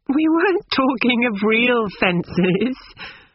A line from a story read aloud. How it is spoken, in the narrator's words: said Lucy, laughing